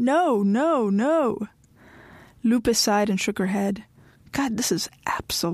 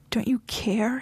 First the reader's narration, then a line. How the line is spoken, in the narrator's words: He pleaded